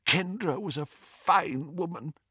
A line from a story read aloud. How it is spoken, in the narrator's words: whispered Doge miserably